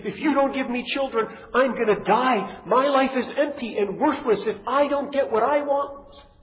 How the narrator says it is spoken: Rachel shouts at Jacob

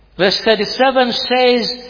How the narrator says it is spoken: he cried out with a loud voice

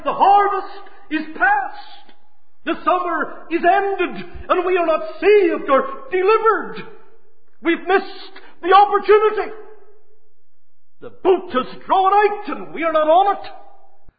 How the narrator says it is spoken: He cries

